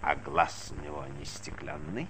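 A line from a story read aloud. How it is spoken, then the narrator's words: Little one, hoarse question. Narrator (Russian): спросил маленький хрипло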